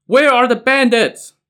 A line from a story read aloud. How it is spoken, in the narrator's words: Tong Guan's infantrymen shouted toward the boat